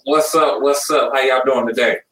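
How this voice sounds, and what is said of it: Polished radio-announcer voice. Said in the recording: “That's radio voice.”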